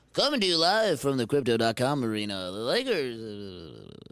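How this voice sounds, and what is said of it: Sports announcer voice. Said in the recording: “announcer voice”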